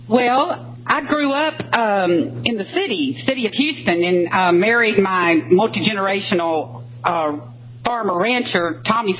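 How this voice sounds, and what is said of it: Texas twang. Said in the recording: “You can hear it in the Texas twang, huh? ... I can hear it in the attitudinal twang. Maybe it's a Texas twang as well.”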